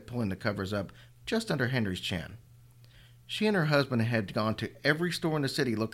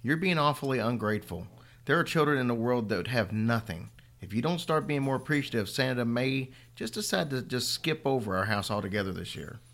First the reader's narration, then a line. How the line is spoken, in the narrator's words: Tanya said a little more sharply than she'd intended